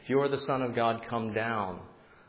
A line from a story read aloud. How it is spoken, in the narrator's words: they shouted